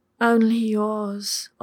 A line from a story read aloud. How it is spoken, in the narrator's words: Ollie moaned back